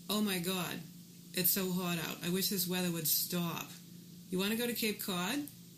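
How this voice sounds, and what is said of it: Put-on Boston accent. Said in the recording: “how to speak with a Boston accent. Very basic lesson, not regional dialects, not North Shore, not talking about Southie, no slang. This is just Boston accent 101”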